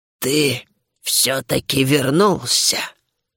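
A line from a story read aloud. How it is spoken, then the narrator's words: Hoarse wheeze. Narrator (Russian): прохрипела матриарх кобальдов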